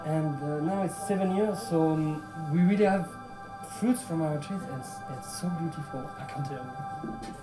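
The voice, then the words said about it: Bubbly, light accent. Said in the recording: “He's got such a fantastic accent. It really is so bubbly and light.”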